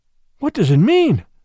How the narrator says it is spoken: I gasped

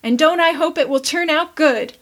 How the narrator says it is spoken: exclaimed Tilly

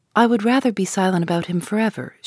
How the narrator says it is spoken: answered

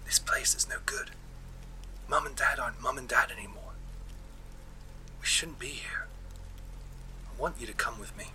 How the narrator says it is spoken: whispered

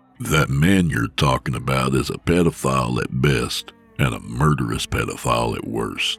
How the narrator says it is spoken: Nick said flatly

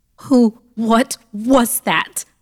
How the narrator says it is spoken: I shouted frantically

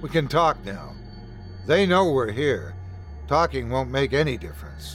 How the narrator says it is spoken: Faxton said

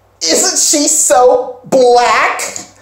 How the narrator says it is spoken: One girl, who is white, says real loudly

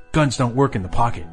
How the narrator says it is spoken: Max snapped without thinking

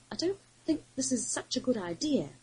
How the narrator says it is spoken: Krennis ventured, shifting uneasily

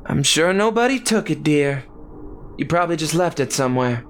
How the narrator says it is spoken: Daisy sighed

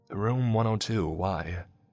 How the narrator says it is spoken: I sighed a breath of relief

